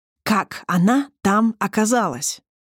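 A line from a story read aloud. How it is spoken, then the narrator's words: Hissed into face. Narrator (Russian): зашипел он Эндану в лицо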